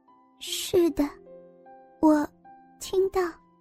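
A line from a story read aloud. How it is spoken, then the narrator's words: Hesitant mumbling. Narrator (Chinese): 被俘虏的王老师先是迟疑了一阵子，然后喃喃回答着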